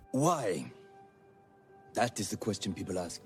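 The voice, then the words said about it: American actor's French accent. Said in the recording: “French accent ... Joseph Gordon Levitt plays Philippe Petit ... Critics said the accent was pretty good, but not great. Joseph Gordon Levitt is American”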